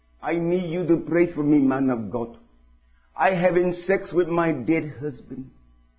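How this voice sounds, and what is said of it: Put-on Jamaican accent. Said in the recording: “in the Jamaican accent”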